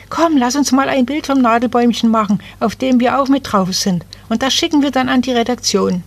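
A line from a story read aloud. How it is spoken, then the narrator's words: Little girl calling out. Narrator (German): zwei kleine Mädchen … das eine … rief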